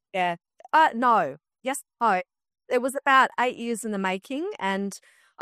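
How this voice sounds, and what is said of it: Australian accent. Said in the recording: “As you can tell from her accent, she's Aussie.”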